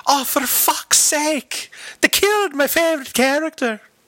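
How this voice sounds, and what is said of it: Put-on Irish accent. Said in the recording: “Every time that you do this accent, I literally picture the Irish guy from Austin Powers.”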